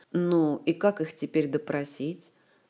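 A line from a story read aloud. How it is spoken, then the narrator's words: Gloomy question. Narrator (Russian): мрачно поинтересовался Кантор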